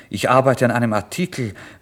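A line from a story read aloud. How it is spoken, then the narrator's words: Plain. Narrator (German): sagte ich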